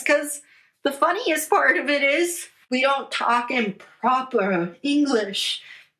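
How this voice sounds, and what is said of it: Poor put-on British accent. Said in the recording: “That was the worst British accent I could have ever done”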